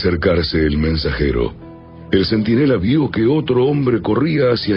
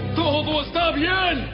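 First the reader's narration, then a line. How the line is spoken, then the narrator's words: Shouted. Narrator (Spanish): Ahimaas le gritó al rey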